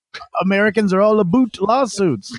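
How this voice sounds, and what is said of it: Mock imitation of listener's accent. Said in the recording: “Did you say a boot? ... I got to make fun of your accent”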